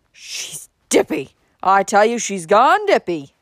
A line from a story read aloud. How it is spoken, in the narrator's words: snorted angrily